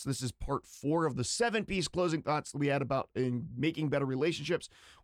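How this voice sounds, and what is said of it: Strained, failing voice. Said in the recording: “my voice is kind of struggling... when I'm talking, I'm losing it pretty quickly”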